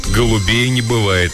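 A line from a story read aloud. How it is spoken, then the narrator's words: Gloomy joke. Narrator (Russian): мрачно пошутил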